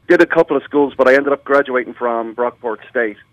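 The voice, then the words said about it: Irish Dublin accent. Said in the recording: “Love your accent. We understand you came over from Ireland, Dublin, Ireland”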